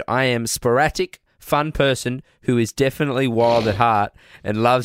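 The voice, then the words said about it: Put-on accent reading a quote. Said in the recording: “You're doing an accent. Why are you doing an accent?”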